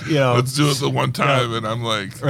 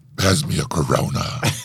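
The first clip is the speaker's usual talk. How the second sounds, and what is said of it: Vin Diesel impression. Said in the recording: “your Vin Diesel voice ... I clearly do a great impression”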